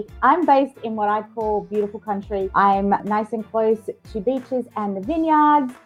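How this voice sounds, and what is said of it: Australian accent. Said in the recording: “my Aussie girl ... you can tell from my accent, I'm an Aussie”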